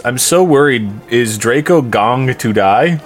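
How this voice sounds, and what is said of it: Worried-sounding voice. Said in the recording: “in a worried voice.”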